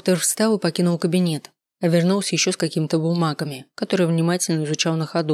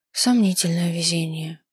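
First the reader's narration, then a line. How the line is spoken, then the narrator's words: Sighing. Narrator (Russian): вздохнула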